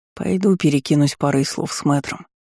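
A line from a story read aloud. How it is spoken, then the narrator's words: Muttered. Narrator (Russian): пробормотал Э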